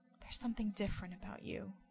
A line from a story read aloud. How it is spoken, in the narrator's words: Sam whispers, his face against Dean's chest